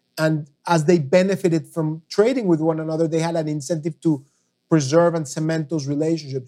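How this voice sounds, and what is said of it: Speaks with a noticeable foreign accent. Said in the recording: “with my accent, it's called FOOD. Sometimes people think I'm thinking about feet product, but food.”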